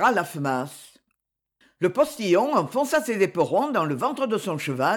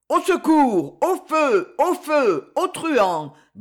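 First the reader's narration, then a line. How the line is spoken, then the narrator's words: Shrill yelp. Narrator (French): glapit la voix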